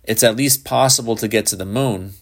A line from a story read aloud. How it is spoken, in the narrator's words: Shepard said dryly